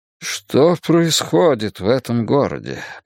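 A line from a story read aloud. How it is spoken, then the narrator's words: Mayor muttering. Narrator (Russian): пробормотал мэр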